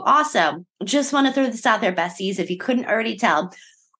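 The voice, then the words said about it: Hoarse, partly lost voice. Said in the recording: “I unfortunately lost my voice this week... you don't sound like a monster”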